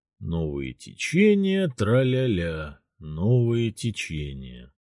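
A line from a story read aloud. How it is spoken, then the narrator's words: Humming to unknown tune. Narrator (Russian): мурлыкая на какой-то неизвестный мотив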